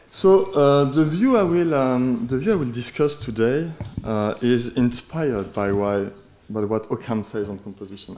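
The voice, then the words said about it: French accent in English. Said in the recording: “je cultive mon accent français en anglais”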